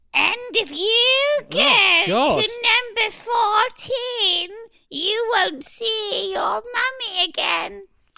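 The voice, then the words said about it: Witch voice with German accent. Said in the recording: “your witch impression is far and above better than your lamb impression ... she's gone German ... it's quite posh there ... She's German when you deliberately put that German accent on.”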